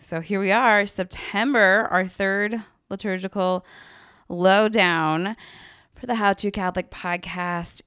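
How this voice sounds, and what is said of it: Congested voice from a cold. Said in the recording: “I have a little bit of a cold, so I'm sorry if I sound funny”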